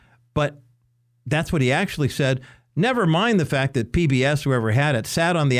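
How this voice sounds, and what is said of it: Usual voice. Nothing is said of it.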